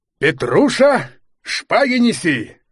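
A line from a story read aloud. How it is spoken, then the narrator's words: Joyful shout. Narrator (Russian): крикнул генерал, радостно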